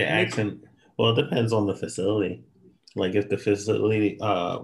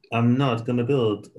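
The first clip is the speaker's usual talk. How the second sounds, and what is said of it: Bad put-on French accent. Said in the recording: “This is the worst French accent I've ever heard in my life.”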